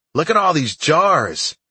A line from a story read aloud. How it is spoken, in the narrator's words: Fred shouted